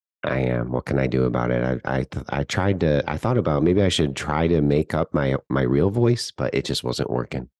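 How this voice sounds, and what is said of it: Very deep voice from a cold. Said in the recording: “I have a very deep voice today because I am recovering from a cold ... you are in the cellar today”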